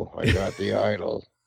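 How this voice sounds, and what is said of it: Raspy older action-hero voice impression. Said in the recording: “Indiana Jones impression ... You even have the aged Harrison Ford impression and not the young ... be able to get that rasp right”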